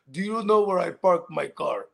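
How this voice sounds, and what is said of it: Put-on Hungarian accent. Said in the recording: “He's my Hungarian homie ... He had the accent.”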